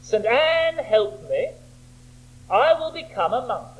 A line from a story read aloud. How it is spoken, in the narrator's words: he cried out, as many another medieval man has cried out